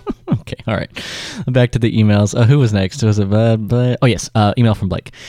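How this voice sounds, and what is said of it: Usual voice. Nothing is said of it.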